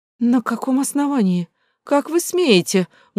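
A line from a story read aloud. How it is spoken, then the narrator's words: Angry shriek. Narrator (Russian): густо багровея взвизгнула Люся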